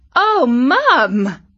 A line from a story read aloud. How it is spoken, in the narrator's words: exclaimed Katie